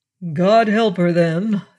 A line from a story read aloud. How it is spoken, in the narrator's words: said gloomily